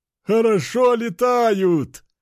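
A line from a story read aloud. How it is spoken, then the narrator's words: Laughing loudly. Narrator (Russian): хохотал один из бойцов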